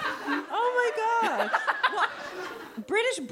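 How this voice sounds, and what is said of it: Usual voice. Nothing is said of it.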